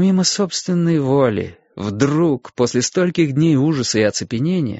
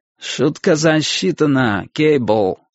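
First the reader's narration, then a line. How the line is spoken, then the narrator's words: Nasty drawling voice. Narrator (Russian): отозвался я противным тягучим голосом Плата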